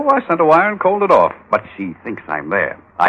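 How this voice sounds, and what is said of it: Usual voice. Nothing is said of it.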